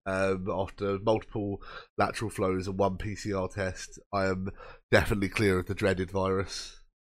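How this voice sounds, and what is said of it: Slightly rough, throaty voice. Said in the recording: “You might still be able to hear it in my voice ... the throat gets caught up for weeks”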